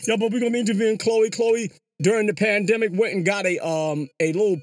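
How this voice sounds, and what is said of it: Usual voice. Nothing is said of it.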